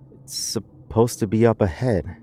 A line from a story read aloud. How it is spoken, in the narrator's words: she whispered to herself